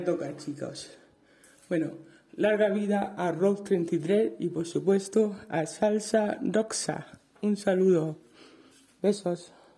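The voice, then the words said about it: Murcian Spanish accent. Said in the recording (Spanish): “Qué alegría me ha dado escuchar ese acento murciano ... Me ha hecho ilusión escuchar el acento murciano”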